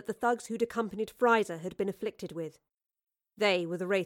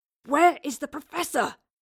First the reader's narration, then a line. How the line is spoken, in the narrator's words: Will gasped, the wraith holding his throat tightly in its grasp